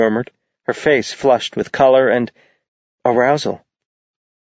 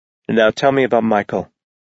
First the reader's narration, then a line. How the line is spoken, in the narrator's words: Ash said in an even tone